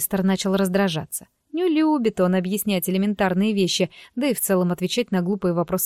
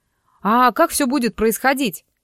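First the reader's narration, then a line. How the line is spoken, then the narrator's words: Shout from audience. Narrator (Russian): выкрикнул кто-то из зала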